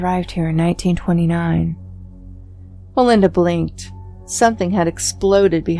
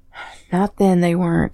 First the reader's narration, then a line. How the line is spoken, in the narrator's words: said Calvin, sadly